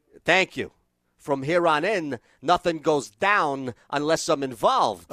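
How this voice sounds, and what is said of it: Christopher Walken impression. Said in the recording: “one of the best Christopher Walken scenes ever ... That's very good. ... That's your best impression I've ever heard you do. ... That's like Jay Moore like quality.”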